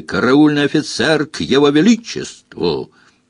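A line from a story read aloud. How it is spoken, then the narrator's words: Barked even louder. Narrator (Russian): рявкнул еще громче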